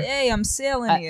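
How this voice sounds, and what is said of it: Put-on Massachusetts or New York accent. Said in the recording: “The Massachusetts accent that ... just employed. That's amazing. ... That was New York. ... It sounded like Massachusetts.”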